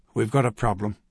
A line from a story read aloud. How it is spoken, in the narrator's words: he said quietly